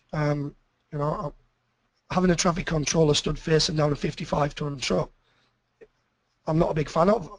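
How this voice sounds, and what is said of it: UK English accent. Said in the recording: “You can tell by the accent, I don't originate from Australia, that in the UK”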